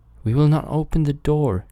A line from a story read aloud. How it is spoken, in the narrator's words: cried they